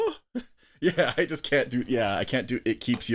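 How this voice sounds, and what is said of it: Usual voice. Nothing is said of it.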